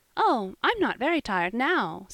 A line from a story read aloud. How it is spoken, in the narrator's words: said Polly, brightly, with a merry little laugh